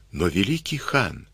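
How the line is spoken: Whispered. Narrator (Russian): шепнула она

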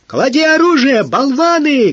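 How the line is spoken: Lieutenant shouting from shore. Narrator (Russian): кричал с берега поручик

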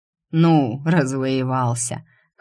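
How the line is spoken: Short chuckle. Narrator (Russian): хохотнул Седой

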